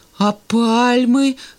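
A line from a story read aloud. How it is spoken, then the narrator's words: Timid objection. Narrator (Russian): робко возразил Санька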